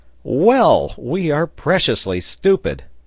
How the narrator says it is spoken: Pencroft cried out

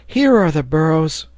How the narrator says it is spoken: cried Herbert

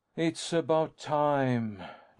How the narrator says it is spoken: Lance sighed

